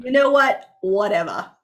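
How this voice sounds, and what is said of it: Put-on Australian accent. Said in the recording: “That was a little Australian. ... No matter what I do, I tend to go Australian.”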